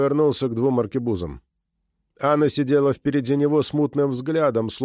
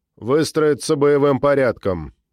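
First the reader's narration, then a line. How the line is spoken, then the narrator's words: Plain. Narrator (Russian): сказал я Антонио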